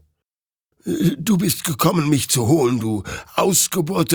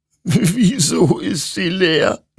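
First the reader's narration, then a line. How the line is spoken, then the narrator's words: Sobbing. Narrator (German): schluchzte Hektor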